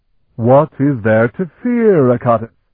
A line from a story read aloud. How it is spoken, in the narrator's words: he asked in a booming voice